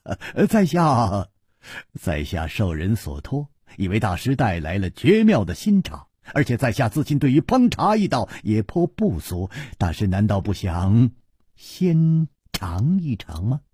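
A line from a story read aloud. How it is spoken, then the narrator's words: Sudden laugh. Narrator (Chinese): 楚留香忽然笑道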